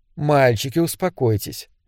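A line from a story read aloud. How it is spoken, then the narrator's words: Gentle chiding. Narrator (Russian): мягко пожурила Маргарет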